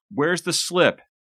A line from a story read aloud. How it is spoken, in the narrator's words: He shouted